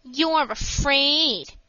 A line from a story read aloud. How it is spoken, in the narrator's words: sneered Mickey